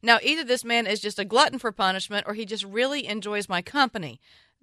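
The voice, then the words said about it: Southern American accent. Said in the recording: “I'm a fan of your Southern accent.”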